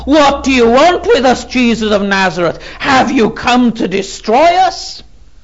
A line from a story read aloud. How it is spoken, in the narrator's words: he screams out there in the synagogue